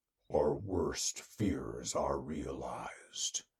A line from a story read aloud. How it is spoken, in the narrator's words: rumbled